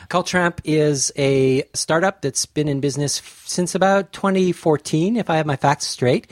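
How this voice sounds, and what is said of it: Canadian accent. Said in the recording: “you can probably tell from my accent, I'm originally from Canada”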